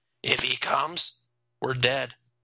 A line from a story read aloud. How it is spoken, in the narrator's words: Jason said in a flat voice